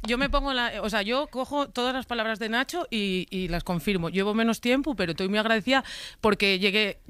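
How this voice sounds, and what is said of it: Asturian Spanish accent. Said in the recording (Spanish): “hemos reivindicado tu acento ... hablo asturiano”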